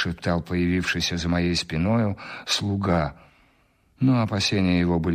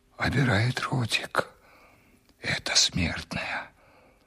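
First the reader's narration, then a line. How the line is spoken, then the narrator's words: Whisper in ear. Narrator (Russian): прошептал мне на ухо слуга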